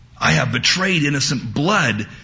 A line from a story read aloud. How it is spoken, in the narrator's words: Judas exclaimed